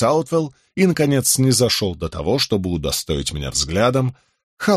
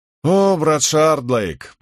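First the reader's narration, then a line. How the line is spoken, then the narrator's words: Cheerful exclamation. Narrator (Russian): бодрым голосом воскликнул Фловердью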